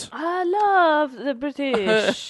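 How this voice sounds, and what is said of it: Put-on French accent. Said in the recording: “That's a French accent.”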